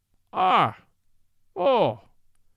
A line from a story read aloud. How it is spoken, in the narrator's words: he cried in pure Irish